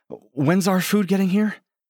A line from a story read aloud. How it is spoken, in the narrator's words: Stella asks breathlessly